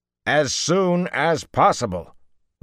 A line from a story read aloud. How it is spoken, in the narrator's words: Rand snapped